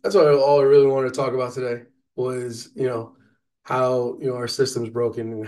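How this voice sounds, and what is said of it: Voice sounding sick. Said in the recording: “I was sick. Um, you can still hear it in my voice.”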